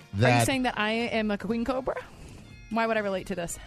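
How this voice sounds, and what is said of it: Out of breath, panting. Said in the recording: “I'm out of breath ... I'm so out of breath still.”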